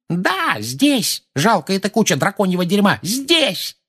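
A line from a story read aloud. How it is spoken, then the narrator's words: Yelled. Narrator (Russian): заорала миссис Фиг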